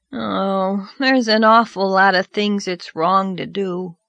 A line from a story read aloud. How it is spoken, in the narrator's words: said Davy with a sigh